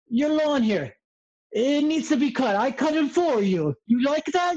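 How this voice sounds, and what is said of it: Broken Italian accent. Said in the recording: “broken Italian accent”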